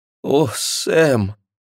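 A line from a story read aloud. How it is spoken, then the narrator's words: Moaning. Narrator (Russian): простонала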